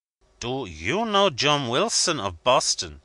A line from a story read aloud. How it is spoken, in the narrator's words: he cried